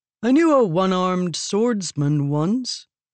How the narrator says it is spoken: Adolin said, yawning

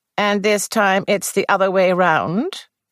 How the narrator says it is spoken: asked Miss Marple dryly

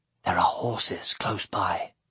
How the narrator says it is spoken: Aragorn whispering

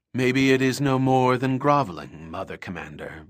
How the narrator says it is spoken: Belanda said

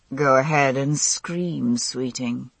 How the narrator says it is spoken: he murmured

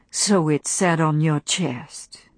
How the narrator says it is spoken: said Rhett softly

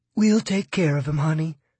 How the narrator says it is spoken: says a nurse in a comforting tone

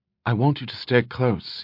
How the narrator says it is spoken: he said quietly

